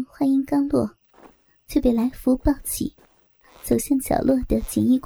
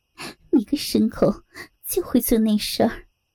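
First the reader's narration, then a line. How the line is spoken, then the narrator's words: Laughing hard. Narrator (Chinese): 美凤笑得弯下了腰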